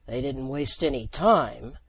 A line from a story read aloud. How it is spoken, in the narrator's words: Jeff growled